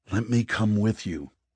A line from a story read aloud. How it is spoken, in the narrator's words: Eli pleaded